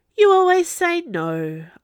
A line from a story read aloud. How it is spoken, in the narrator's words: sighed